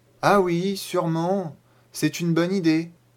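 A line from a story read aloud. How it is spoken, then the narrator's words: Uncertain voice. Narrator (French): dit Nico d'une voix incertaine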